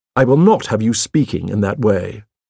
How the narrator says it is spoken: I said sharply

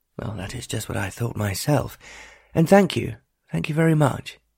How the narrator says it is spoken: replied Lord Wainclyffe

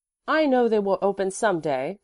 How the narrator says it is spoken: the boy asserted firmly

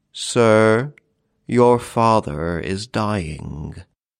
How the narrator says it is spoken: saying, in a hollow voice, the solemn words

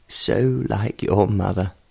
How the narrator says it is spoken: in a voice that was choked with emotion

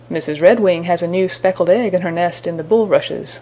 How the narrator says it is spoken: said Grandfather Frog

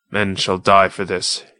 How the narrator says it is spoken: said coldly

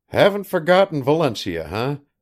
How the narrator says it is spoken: chuckled the artist gloatingly

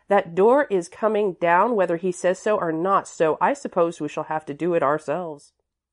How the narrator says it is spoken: she added firmly

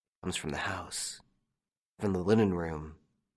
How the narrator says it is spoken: One of them said, under his breath

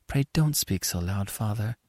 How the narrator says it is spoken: whispered Annie

